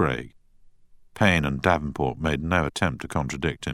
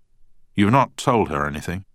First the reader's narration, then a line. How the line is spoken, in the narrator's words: asked Craig anxiously